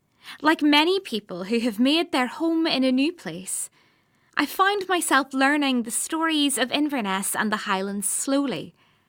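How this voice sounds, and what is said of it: Non-Scottish accent. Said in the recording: “you'll have gathered from my accent that I didn't grow up here in Scotland”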